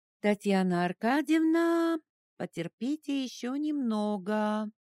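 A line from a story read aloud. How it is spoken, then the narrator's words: Singsong. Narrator (Russian): нараспев сказала она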